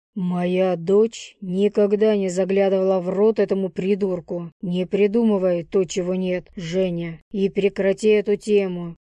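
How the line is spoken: Rough, harsh. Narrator (Russian): грубо произнес отец

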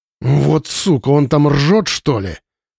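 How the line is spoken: Young man growling. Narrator (Russian): прорычал кто-то из парней

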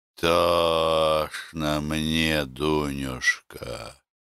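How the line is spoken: Quiet answer. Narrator (Russian): тихо ответила Кулко

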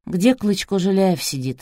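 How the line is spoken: Sighing. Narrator (Russian): вздохнул Полуянов

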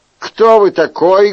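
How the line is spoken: Rude question. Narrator (Russian): грубо спросил герцог

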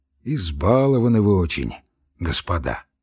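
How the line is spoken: Sighed. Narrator (Russian): вздохнул Самойленко

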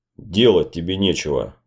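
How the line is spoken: Muttering. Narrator (Russian): бормотал Деф

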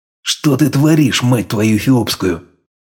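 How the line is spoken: Hissing, mixed languages. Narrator (Russian): Мешая английские и русские слова, прошипел

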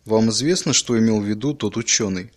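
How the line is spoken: Plain. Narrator (Russian): спросил он

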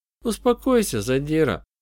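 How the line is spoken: Unusually soft voice. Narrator (Russian): вмешалась Сьюзи непривычно мягким голосом

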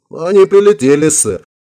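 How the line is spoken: Giggling woman. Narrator (Russian): хихикнула напарница Шварева, симпатичная брюнетка

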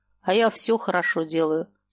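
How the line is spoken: Calm. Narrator (Russian): спокойно сказал Смолин

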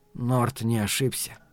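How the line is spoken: Quiet statement. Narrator (Russian): негромко сообщил Каттерсон

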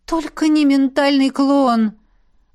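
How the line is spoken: Hopeless moan. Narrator (Russian): обреченно простонала Элисандра

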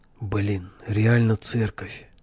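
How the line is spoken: Dropping to a whisper. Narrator (Russian): говорил перешедший на шепот Егор

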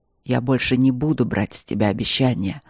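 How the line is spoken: Rumbling voice. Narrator (Russian): сказал Нори своим ракочущим голосом

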